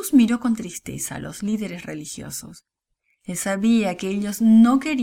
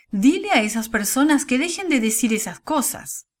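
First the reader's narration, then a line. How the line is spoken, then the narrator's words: Distant shouting. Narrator (Spanish): le gritaron desde la orilla del camino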